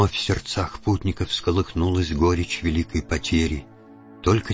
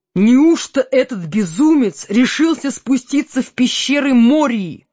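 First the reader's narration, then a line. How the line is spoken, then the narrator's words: Exclaimed. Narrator (Russian): воскликнул Селеборн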